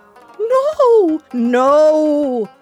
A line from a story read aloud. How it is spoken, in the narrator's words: cried the people